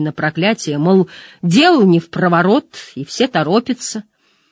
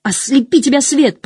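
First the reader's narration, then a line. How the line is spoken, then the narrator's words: Shouting after departing van. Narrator (Russian): прокричал Мэтт вслед фургону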